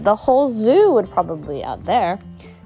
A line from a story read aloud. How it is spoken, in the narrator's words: Granddad laughed and said